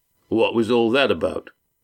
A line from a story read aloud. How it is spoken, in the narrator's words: Walt asked